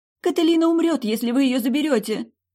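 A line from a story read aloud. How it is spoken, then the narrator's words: Exclamation. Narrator (Russian): воскликнула Деавин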